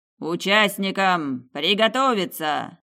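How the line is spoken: Booming voice overhead. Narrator (Russian): Прогремело над головой

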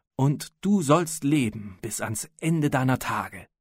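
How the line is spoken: Raised voice. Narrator (German): versetzte der Sultan mit erhöhter Stimme

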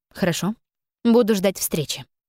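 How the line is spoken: Calm reply. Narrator (Russian): спокойно ответила

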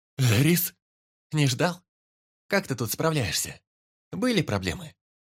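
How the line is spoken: Cheerful questioning. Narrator (Russian): Бодро спрашивала Магесса

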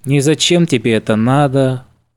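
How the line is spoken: Glum question. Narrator (Russian): уныло поинтересовался Кац

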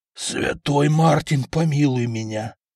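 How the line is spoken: Merchant's crushed, despairing voice. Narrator (Russian): убитым голосом сказал купец

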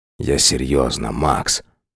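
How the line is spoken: Hoarse. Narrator (Russian): хрипло проговорил он

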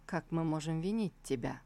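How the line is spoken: Gentle. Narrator (Russian): Он мягко ответил

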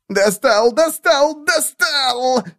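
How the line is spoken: Shrieking. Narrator (Russian): визжал Венас, сверкая глазами

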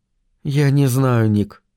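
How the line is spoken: Sad voice. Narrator (Russian): сказала она печальным голосом

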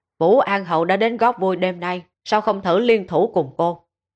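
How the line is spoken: Sudden raised voice. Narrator (Vietnamese): Bỗng nhiên, y cao giọng nói về phía Tạ Chinh

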